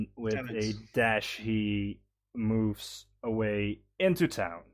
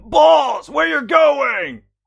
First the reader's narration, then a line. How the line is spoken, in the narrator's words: Borkol screams after him